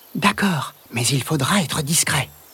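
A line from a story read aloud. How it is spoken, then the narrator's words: Murmured. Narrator (French): murmure Margot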